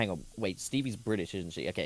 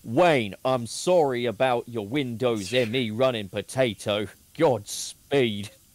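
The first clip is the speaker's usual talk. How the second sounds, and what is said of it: Put-on Cockney British accent. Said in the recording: “for the Cockney accent ... my British accent”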